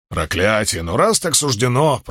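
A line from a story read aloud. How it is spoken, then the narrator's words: Grumbling mutter. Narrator (Russian): пробурчал Уна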